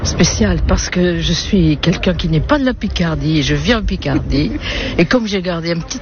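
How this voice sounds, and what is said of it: Slight southern French Toulouse accent. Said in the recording (French): “accent toulousain ... j'ai l'accent du Sud ... il s'est adouci. Mais il y a encore une pointe ... on entend un petit peu”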